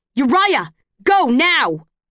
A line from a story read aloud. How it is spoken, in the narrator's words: The shout rings with nothing on the street to soften the sound of it